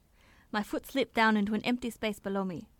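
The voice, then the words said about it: Put-on accent. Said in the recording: “I don't know what accent this is.”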